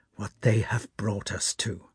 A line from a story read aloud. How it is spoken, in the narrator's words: his voice shook when he said